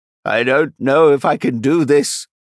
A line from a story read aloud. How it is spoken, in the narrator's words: Abathol called out, his voice strained after a few shaky steps